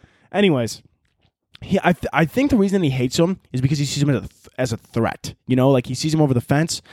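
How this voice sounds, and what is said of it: Usual voice. Nothing is said of it.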